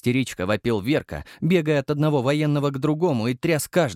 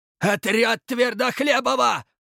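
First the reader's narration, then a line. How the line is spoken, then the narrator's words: Yelled. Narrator (Russian): заорал он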